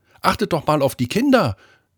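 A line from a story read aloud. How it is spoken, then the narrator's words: Worried mother calling out. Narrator (German): rief eine besorgte Mutter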